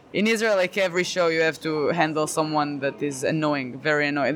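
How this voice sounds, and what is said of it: Non-native accent in English. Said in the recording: “I don't know if they even understand me all the time because of my accent”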